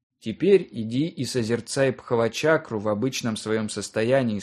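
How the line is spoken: Plain. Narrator (Russian): сказал брат Пон

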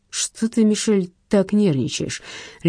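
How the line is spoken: Lazy question. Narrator (Russian): лениво спросил Силиконов

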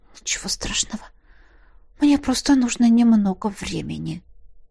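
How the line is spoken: Whisper. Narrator (Russian): прошептала

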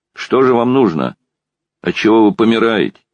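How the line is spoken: Shouting again. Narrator (Russian): крикнул опять Квашнин

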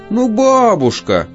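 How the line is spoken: Feigned moan. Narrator (Russian): опять наигранно застонала

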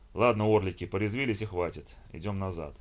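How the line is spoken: Weary. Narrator (Russian): устало произнес Робин

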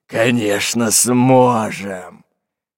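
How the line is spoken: Hoarse whisper. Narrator (Russian): хриплым шепотом произнес Буль-Буль

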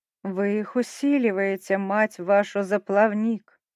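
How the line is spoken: Growling chorus. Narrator (Russian): рычали горгоны

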